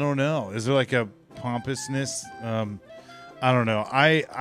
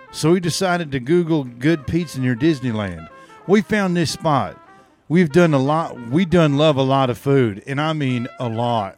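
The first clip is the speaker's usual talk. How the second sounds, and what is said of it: Put-on Tennessee accent. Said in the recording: “Is this your Tennessee accent? ... I think so.”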